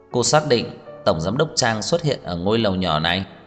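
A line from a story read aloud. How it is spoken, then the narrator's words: Cold question. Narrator (Vietnamese): Tưởng Vĩ Quốc lạnh lùng hỏi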